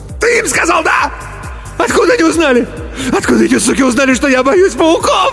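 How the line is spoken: Choking shriek. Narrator (Russian): Взвизгнул Иван и захлебнулся

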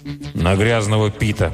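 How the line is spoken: Grumbling. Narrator (Russian): пробурчал Милтон

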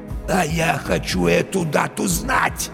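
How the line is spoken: Hoarse wheeze. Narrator (Russian): Барилла просипел

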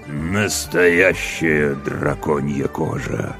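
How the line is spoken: Haughty through gritted teeth. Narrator (Russian): надменно процедил темный властелин

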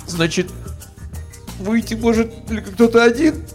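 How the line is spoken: Sudden sob. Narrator (Russian): неожиданно всхлипнул я

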